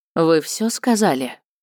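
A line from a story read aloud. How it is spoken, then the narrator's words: Even, restrained tone. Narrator (Russian): спросила Таня ровным тоном, стараясь из всех сил не показать, что творится у нее на душе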